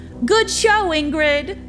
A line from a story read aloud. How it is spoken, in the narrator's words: called out